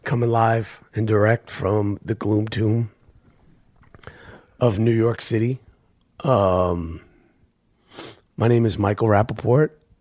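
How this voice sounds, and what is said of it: Weakened, strained voice. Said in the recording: “my voice isn't at full strength... I threw my voice out... lost my voice”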